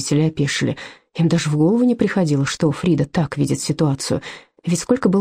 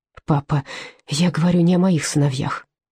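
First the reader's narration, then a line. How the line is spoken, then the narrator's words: Soft interruption. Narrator (Russian): мягко перебила Фрида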